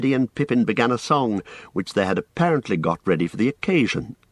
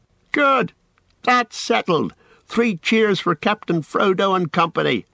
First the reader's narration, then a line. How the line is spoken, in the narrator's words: they shouted